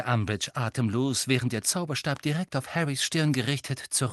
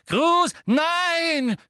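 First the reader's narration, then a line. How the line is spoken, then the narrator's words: Scream, broken voice. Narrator (German): schrie Hermine mit gebrochener Stimme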